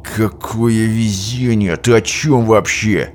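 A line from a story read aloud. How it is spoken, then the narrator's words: Through gritted teeth. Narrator (Russian): процедил сквозь зубы капитан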